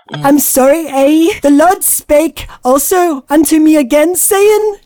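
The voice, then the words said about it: Poor attempt at Canadian accent. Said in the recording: “Can anybody sound like a Canadian? ... apologize like a Canadian ... yeah, you're totally Irish, but wrong.”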